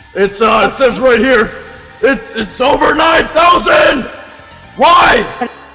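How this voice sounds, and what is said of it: Screaming loudly. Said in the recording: “I can hardly hear you. If you keep screaming ... if you scream, I can't understand what you are saying”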